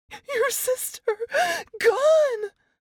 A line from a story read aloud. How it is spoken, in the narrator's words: Through my sister's sobbing wails